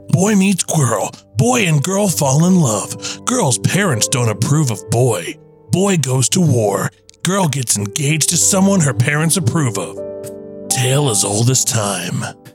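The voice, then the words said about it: Dramatic movie trailer narrator voice. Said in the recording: “my rom-com trailer voice”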